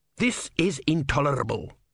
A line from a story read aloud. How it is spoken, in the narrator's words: snapped Vorbis